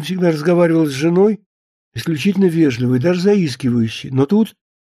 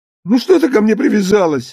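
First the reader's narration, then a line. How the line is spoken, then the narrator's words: Tearful shout. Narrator (Russian): закричал он плачущим голосом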